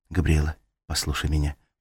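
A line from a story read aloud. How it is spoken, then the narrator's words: Whisper. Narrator (Russian): прошептала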